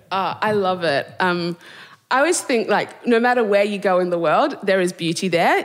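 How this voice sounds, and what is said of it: Australian accent. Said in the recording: “by your accents, you're not from Bradford and around here ... from Perth, Western Australia originally”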